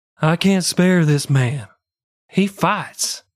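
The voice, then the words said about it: Imitated voice, slightly higher pitch. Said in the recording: “my best Lincoln impersonation... He had a little bit of the higher... voice. Really good.”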